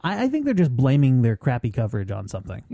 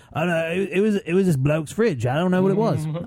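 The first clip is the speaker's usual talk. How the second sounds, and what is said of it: Put-on Australian accent. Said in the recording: “I got to work on my Australian accent.”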